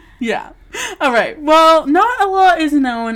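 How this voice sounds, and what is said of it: Usual voice. Nothing is said of it.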